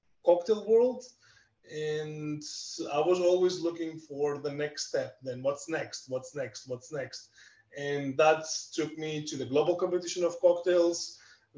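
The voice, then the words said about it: Greek accent. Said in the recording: “Obviously, I'm Greek. You can definitely tell from my accent.”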